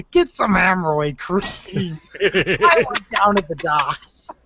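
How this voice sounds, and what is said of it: Crabby New York accent. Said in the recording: “he has that, like, New York crabby accent”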